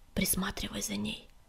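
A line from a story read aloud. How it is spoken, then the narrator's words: Whisper. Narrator (Russian): шепнул он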